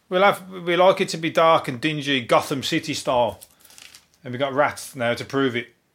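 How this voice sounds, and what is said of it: Birmingham English accent. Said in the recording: “Birmingham... we had the worst accent... the least sexiest accent... the most untrustworthy accent... love my accent”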